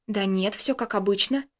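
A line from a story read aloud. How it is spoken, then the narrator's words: Quiet puzzled speech. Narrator (Russian): недоумевая тихо проговорил Костя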